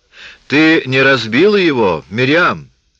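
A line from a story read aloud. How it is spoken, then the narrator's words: Loud question. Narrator (Russian): спросил светловолосый громким голосом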